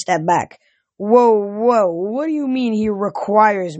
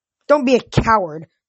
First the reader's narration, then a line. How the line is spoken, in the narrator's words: hissed